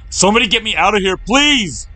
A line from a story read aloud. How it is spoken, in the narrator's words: he yelled through the small aperture